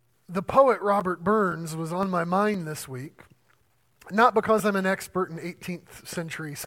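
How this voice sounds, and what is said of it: Usual voice. Nothing is said of it.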